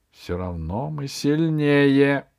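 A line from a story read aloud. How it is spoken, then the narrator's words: Grumbling. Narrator (Russian): проворчал колдун в шкурах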